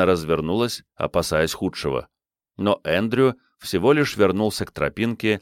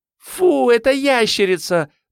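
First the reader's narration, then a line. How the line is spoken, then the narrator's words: Squeaky. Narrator (Russian): пропищала Салли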